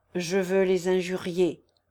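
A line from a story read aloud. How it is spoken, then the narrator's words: Grumbled. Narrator (French): grommela Kirillov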